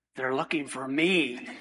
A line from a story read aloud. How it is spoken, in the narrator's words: little boy kind of chuckled and whispered